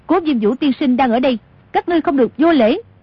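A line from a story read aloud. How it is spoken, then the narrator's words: Raised-voice call. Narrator (Vietnamese): Tô Thuyền cao giọng gọi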